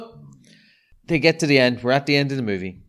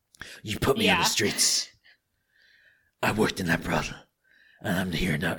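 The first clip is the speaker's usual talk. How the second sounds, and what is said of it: Gravelly Batman-style character voice. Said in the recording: “I'm doing Batman there. I don't know what the fuck I'm doing. I can't do accents anymore.”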